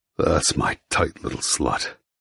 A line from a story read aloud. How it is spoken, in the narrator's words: he growls into my ear